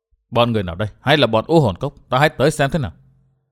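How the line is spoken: Muttering. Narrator (Vietnamese): lẩm bẩm

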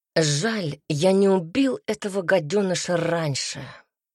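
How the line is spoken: Hoarse. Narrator (Russian): наконец произнес Альберт хрипло

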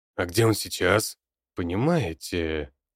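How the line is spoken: Mysterious tone. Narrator (Russian): загадочным тоном говорил он

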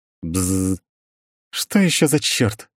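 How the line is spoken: Displeased grumble. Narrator (Russian): недовольно пробурчала виконтесса

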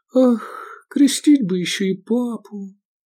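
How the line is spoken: Sighing. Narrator (Russian): вздохнула Овидия

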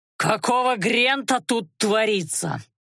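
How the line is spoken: Growl. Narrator (Russian): прорычал он

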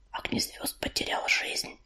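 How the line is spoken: Whispered. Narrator (Russian): прошептала она Белоснежке

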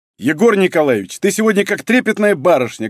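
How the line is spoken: Loud bark. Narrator (Russian): гаркнул Денис

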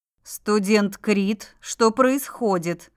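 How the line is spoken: Stern question. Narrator (Russian): спросила я строго

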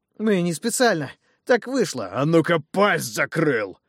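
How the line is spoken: Giant's bark. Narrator (Russian): рявкнул гигант

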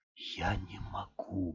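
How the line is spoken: Mumbling. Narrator (Russian): бормотал он

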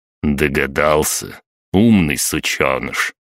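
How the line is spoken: Even-voiced question. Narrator (Russian): ровным голосом спросил

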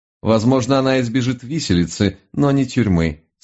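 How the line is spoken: Calm reply. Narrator (Russian): спокойно ответил мой учитель

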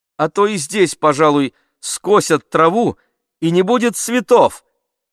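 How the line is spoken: Cheerful shout. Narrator (Russian): закричал я, весело

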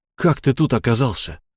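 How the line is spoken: Forced out. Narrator (Russian): выдавил я

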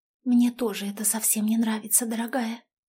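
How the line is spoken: Whisper. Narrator (Russian): шепотом сказала

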